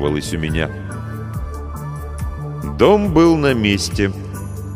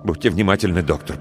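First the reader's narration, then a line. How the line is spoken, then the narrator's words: Mumbled. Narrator (Russian): пробормотал я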